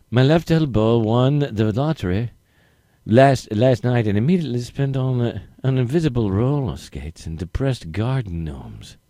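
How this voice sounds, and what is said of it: Put-on foreign accent. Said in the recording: “Your next accent. If you get this accent that ... will expertly, definitely do”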